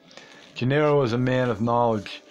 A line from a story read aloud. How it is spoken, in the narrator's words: Don Juan said dryly